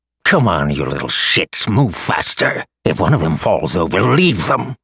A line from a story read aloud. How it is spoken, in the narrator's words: a giant of a man snarled